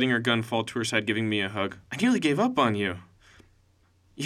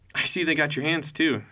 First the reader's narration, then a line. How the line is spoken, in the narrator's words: she said, giggling